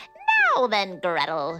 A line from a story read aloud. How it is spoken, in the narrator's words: she screeched